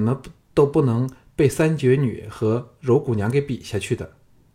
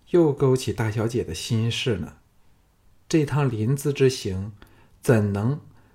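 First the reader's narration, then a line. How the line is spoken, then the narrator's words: Sighing, low voice. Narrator (Chinese): 杏月也陪着叹了一口气，低声说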